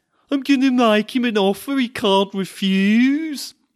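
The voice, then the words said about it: Put-on Birmingham criminal accent. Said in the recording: “as one of the slick Birmingham criminal masterminds might say ... Ew, what a horrible noise.”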